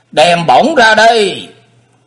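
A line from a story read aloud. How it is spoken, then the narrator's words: Shouting loudly. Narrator (Vietnamese): Cao Kỳ thét to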